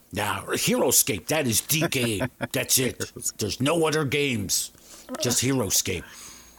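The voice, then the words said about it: Disgruntled middle-aged man character voice. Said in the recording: “that is your 53-year-old man impersonation ... my 53-year-old disgruntled HeroScape player”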